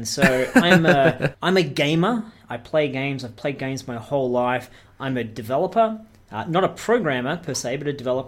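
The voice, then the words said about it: Australian accent. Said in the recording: “I'm an Australian, as people listening can tell from the accent”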